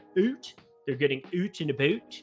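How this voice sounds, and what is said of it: Put-on Canadian accent. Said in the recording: “I don't know why I just sounded Canadian there.”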